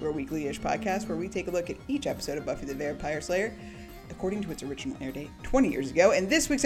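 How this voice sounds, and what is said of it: Usual voice. Nothing is said of it.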